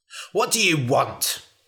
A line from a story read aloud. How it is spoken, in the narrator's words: snapped the man